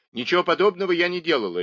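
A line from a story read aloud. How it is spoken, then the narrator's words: Sharp. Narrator (Russian): резко сказала миссис Мейнард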